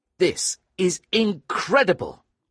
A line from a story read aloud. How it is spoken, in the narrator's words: I cried, because now I really believed him